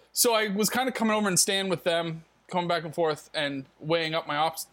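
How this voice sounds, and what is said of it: North American accent. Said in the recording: “I might have a North American accent”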